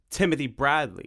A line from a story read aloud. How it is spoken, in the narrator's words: said Tim